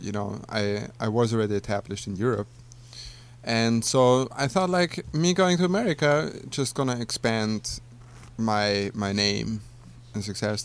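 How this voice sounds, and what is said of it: Austrian-accented English. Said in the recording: “which country are you originally from? ... Austria. ... Not Australia ... If anybody thinks that's an Australian accent, I don't know what to tell you.”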